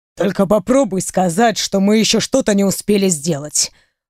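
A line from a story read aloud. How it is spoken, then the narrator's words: Growled. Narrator (Russian): прорычал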